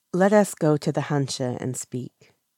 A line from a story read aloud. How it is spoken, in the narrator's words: Lan Qichen says quietly